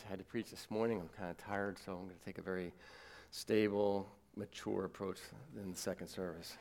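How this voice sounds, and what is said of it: Hoarse, worn-out voice. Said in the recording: “I kind of lost my voice.”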